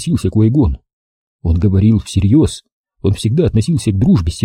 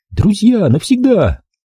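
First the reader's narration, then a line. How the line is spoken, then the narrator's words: Shout. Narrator (Russian): крикнула она ему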